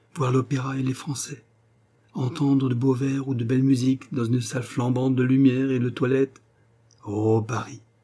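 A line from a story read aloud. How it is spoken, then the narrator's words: Giddy elated exclamation. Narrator (French): s'écria-t-elle comme grisée par ses propres réflexions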